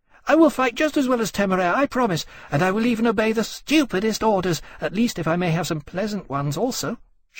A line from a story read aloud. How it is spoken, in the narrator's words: she qualified hastily